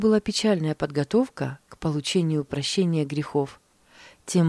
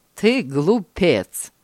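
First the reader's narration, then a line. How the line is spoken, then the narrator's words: Mocking. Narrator (Russian): насмешливо сказал тот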